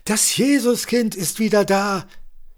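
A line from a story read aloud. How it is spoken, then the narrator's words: Small boy calling joyfully. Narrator (German): Ein kleiner Junge rief freudig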